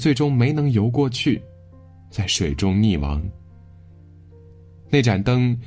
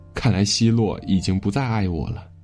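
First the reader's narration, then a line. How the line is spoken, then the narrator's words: Despairing lament. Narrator (Chinese): 他心如死灰，哀叹道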